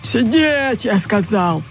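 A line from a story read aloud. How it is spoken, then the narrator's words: Growl. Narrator (Russian): прорычал он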